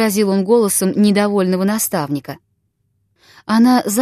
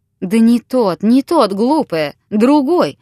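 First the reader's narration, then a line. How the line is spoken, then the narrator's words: Exclaiming. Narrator (Russian): воскликнул Виктор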